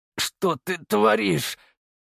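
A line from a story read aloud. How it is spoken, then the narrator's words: Strained forced words. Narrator (Russian): выдавил я из себя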